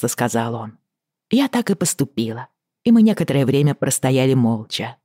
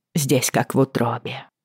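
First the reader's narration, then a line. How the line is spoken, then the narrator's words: Quiet. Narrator (Russian): тихо проговорила я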